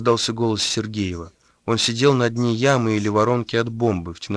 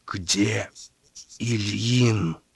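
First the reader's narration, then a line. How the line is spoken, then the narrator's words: Strangled breathless whisper. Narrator (Russian): спросил сдавленным шепотом, переводя дыхание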